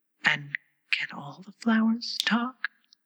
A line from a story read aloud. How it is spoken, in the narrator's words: she spoke again in a timid voice, almost in a whisper